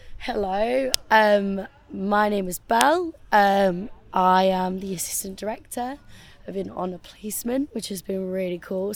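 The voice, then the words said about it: Hoarse, gravelly voice. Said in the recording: “losing my voice. I think it's from shouting over all the music. It's proper gravelly ... I'm so gravelly”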